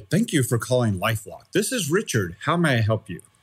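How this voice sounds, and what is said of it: Put-on formal telephone voice. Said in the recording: “my telephone voice”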